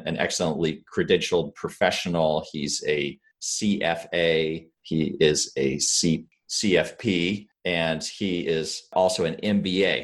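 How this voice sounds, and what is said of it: Polished radio-style voice. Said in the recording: “your radio voice... you're perfect for podcasts”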